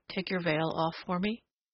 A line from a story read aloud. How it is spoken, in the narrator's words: he said softly